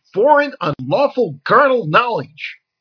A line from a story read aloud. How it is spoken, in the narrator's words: Zale screamed